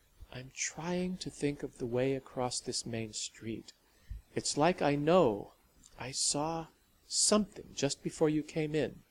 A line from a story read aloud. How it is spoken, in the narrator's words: she made herself say quietly